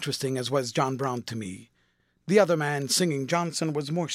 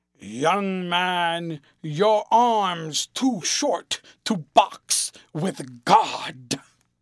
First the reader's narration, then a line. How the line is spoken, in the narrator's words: thundered out